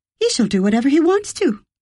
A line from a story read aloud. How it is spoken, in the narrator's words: Alexandra declared warmly